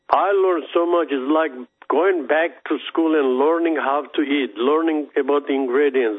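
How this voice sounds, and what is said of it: Non-American foreign accent. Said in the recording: “people can tell because of your accent. You're not originally from the United States.”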